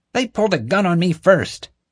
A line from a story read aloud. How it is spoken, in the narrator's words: Marge exclaimed